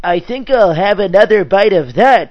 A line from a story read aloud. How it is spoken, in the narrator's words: exclaimed